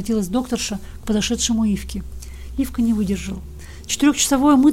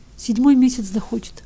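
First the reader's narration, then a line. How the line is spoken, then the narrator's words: Answering through tears. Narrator (Russian): отвечал Ивка все еще сквозь слезы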